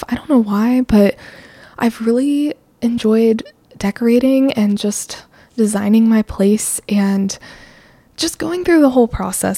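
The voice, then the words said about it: Out of breath, excited. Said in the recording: “I'm like out of breath because I'm so excited”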